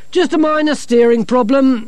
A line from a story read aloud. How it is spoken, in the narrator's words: Masklin called down cheerfully